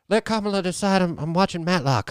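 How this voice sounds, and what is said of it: Joe Biden impression. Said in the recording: “a good Biden impression”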